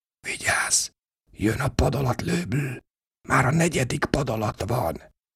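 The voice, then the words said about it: Hoarse whisper. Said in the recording (Hungarian): “egy hangsúg rekedten a fülembe”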